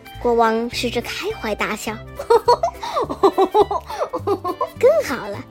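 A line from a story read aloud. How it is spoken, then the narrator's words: Happy laughter. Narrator (Chinese): 开心的大笑着说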